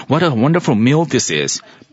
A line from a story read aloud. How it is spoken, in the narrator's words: he exclaimed